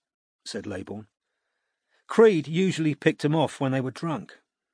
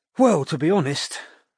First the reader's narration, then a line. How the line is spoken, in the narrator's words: sighed Laybourne